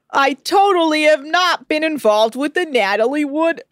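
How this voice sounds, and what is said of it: Imitates another person's voice. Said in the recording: “Your lying voice is your Christopher Walken voice as well ... That wasn't a very good impression ... you lost it. You had it, but you lost it.”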